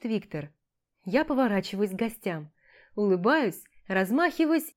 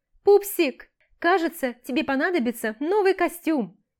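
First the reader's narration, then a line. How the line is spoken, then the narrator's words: Ecstatic full-throated yelling. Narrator (Russian): Во все горло вопит счастливая до безумия тетушка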